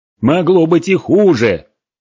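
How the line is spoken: Shout. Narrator (Russian): крикнул Гморг

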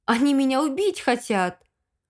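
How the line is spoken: Indignant exclamation. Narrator (Russian): возмущенно воскликнула я

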